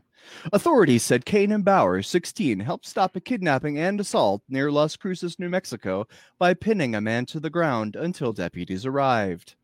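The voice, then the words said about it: Exaggerated announcer voice. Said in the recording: “I'm using my announcer voice now. ... That's a little too much. I'm going to pull it back.”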